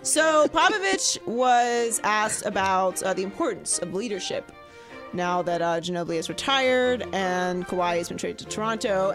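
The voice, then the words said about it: Raspy, slightly lost voice. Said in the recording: “I'm losing my voice a little bit there. Getting a little raspy. Raspy.”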